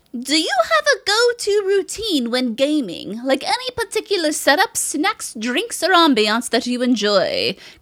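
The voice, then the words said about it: Weird, attempted regal voice. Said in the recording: “I gave you that weird voice because I feel like Lionbeard is such an epic last name. ... Regal to it. Not that my voice was regal, but I tried.”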